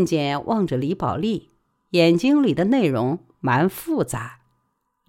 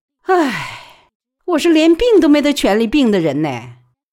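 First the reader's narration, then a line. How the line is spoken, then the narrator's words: Sighing. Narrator (Chinese): 李宝莉叹了一口气，说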